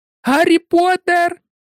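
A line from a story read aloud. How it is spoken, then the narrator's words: Squealed. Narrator (Ukrainian): запищала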